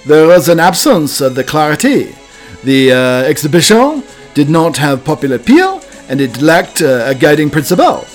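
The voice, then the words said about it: Deliberately bad put-on French accent. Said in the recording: “probably the worst French accent ever”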